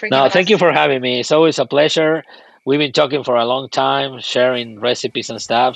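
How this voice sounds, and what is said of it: Speaks with a foreign accent. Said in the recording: “I love your accent.”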